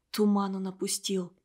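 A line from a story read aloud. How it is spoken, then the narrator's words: Whisper. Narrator (Russian): Клара Хлопова шепнула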